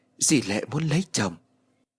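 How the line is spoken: Whispering. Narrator (Vietnamese): Em thì thầm nói

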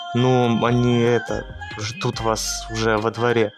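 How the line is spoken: Mumbled. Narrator (Russian): Радомир промямлил

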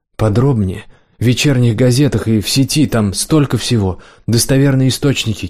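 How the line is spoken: Hoarse wheezing. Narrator (Russian): Кирилл хрипел

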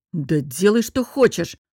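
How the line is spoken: Snapping irritably. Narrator (Russian): огрызнулся он

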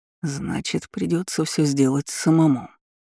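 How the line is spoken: Mutter. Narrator (Russian): пробормотал Рон Деловей

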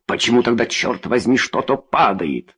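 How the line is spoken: Growling. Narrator (Russian): зарычал Арзатти

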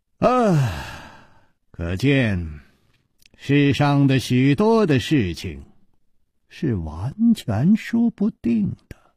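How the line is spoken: Sighing. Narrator (Chinese): 他叹了一口气，接着说

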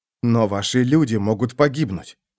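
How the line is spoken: Whisper. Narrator (Russian): прошептал Феликс

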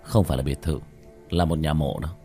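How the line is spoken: Muttering. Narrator (Vietnamese): Chu Dài Hào lẩm bẩm

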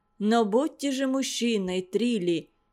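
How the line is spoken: Reproachful deep voice. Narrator (Russian): доктор укоризненно басил

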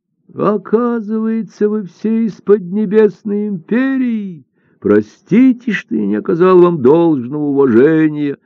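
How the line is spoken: Old man's exclamation. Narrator (Russian): воскликнул старик

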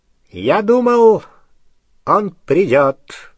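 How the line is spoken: High, clear voice. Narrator (Russian): сказал Волан-де-Морт своим высоким, ясным голосом

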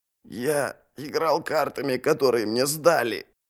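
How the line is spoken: Hoarse wheeze. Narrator (Russian): прохрипел Ярви

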